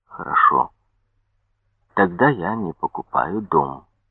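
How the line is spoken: Stubborn quiet repetition. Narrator (Russian): с упорством мула негромко повторял

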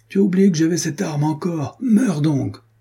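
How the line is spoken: Exclaiming. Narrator (French): s'écria-t-il

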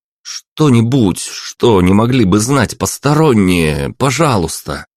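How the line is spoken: Pleading. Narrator (Russian): взмолился

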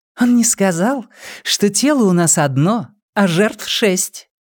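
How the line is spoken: Cheerful whisper in ear. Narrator (Russian): весело прошептала на ухо

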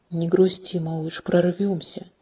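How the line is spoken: Barely audible whisper. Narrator (Russian): Чуть слышный шепот

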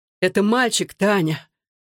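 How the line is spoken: Breathless exclamation. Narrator (Russian): выдохнул Александр

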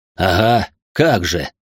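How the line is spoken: Scornful snort. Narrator (Russian): фыркнул медиум

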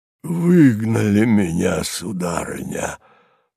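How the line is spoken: Sudden moan. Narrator (Russian): простонал вдруг Харлов

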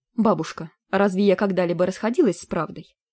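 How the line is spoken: Menacing, ominous question. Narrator (Russian): Грозно и даже зловеще поинтересовалась

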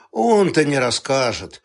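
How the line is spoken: Glum agreement. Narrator (Russian): уныло согласился Халимон

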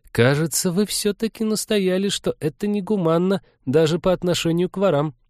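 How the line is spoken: Uncertain. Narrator (Russian): неуверенно сказала Полина

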